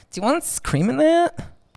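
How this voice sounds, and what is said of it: Pretentious Californian upspeak accent. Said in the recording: “California. Those people sound so pretentious. ... every sentence ends as like if it's a question.”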